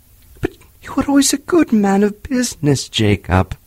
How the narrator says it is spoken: faltered Scrooge

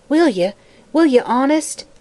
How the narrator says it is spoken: asked the girl eagerly

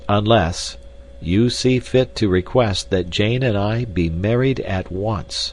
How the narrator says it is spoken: said Candler, slowly and distinctly

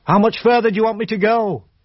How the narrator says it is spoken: he called out

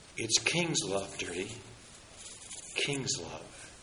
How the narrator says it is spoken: Mercy whispered

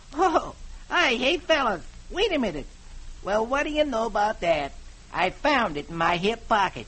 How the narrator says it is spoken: Br'er Rabbit reaches in his back pocket and says cheerfully

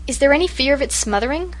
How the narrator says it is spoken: she asked anxiously

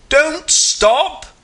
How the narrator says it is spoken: you roar

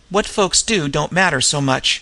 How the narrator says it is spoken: said Ronicky

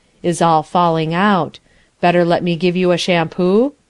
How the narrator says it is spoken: he says, very sadly and sympathetically

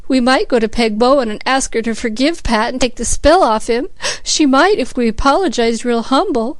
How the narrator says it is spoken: sobbed Cecily

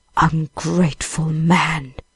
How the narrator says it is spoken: said the beast in a terrible voice

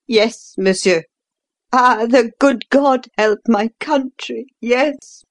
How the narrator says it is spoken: said the Count brokenly

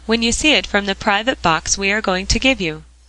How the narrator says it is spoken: cried Jasper

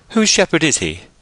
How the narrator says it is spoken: said the equestrian in a clear voice

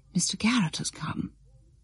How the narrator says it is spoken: Tray said to Miss Carbon under her breath

